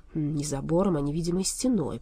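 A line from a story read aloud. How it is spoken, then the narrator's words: Grumbling. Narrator (Russian): проворчал Болт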